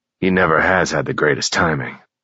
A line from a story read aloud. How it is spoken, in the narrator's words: Bobby grumbled